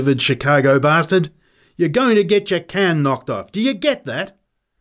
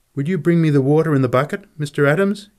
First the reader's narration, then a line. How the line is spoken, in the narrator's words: he said